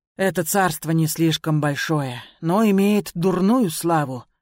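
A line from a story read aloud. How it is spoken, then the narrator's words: Sighing. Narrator (Russian): вздохнул Цзылун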